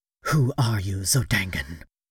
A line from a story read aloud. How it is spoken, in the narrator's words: she whispered